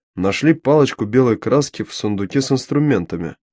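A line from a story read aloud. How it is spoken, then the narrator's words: Gloomy reply. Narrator (Russian): мрачно ответил Мао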